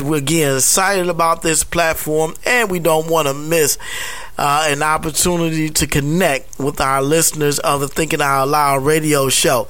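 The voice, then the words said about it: Sick, under-the-weather voice. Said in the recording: “hear it in my voice,... I'm just a little bit under the weather”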